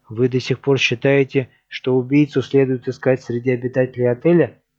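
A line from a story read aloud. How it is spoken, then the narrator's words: Plain. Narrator (Russian): спросила Сью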